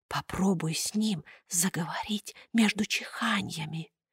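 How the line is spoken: Furtive whisper. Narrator (Russian): Пьеро украдкой шепнул Буратино

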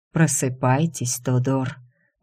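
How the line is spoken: Hoarse calling. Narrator (Russian): позвал Дайм и сам удивился, насколько хрипло звучит его голос

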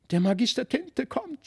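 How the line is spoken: Shouting. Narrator (German): schrie Felix

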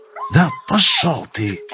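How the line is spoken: Through gritted teeth. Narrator (Russian): отозвался сквозь зубы Винт

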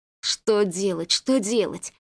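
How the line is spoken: Muttering. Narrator (Russian): бормотал Василий

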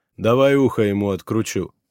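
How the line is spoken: Gloomy suggestion. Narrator (Russian): предложил мрачно Раф

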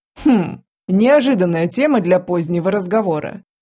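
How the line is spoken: Hmph. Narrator (Russian): хмыкнул лорд Ибисицкий

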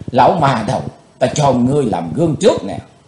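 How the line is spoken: Hissing with hatred. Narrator (Vietnamese): Chàng rít lên giọng căm hờn

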